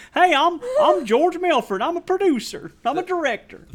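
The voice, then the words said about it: Put-on American accent. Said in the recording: “maybe all the characters in America should be talking like this”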